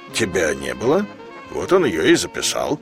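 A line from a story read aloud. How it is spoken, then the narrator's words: Calm reply. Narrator (Russian): На что Говорухин спокойно ответил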